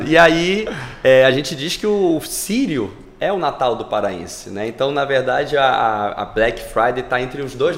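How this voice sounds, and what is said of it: Carioca Brazilian Portuguese accent. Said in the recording (Portuguese): “sou carioca de, de ah, nascença. ... Esse sotaque não engana, hein?”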